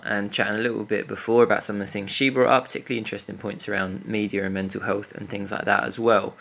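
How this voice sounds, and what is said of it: Pretend Essex accent. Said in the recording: “podcast voices... I've really nailed this pretend Essex accent. No one's guessed yet that I'm actually from the east end of Glasgow... You don't speak like this in the office”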